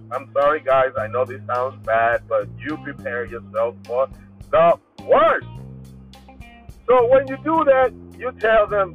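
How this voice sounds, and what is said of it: Loud, shouting delivery. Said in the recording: “I don't know why I'm screaming. ... sometimes I get out of control by the way I speak. I'll be speaking to them loud.”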